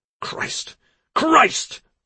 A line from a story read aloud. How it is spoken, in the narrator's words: Timothy cried